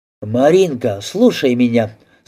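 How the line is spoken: Stern call. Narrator (Russian): строго окликнул Торчков

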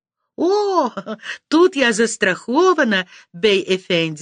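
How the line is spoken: Laughing. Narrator (Russian): смеялась я в ответ

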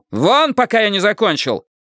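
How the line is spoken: Young doctor's bark. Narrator (Russian): Молодой врач рявкнул

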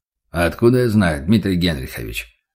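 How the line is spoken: Butcher's grumble. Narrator (Russian): буркнул мясник

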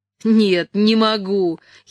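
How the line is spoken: Giggling. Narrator (Russian): хихикала Дженни

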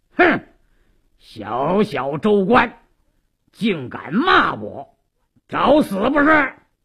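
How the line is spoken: Stern shout. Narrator (Chinese): 鲁斋郎厉声喝道

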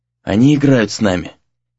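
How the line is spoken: Hoarse. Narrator (Russian): хрипло произнес Сагюнару

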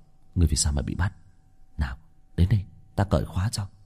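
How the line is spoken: Low voice. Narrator (Vietnamese): Bạch Thường nhỏ giọng

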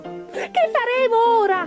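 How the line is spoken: Shrieking. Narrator (Italian): strillò il secondo

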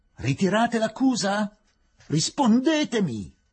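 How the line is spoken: Official shouting. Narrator (Italian): gridò il rappresentante della giustizia

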